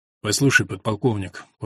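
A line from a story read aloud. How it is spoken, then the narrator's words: Quiet repetition. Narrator (Russian): повторил негромко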